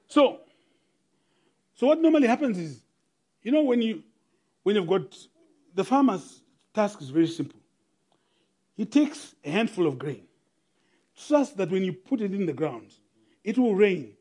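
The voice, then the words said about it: South African Model C accent. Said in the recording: “my nearly Model C accent”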